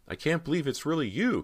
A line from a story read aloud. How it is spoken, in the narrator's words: Cody cried, feeling her emotions swell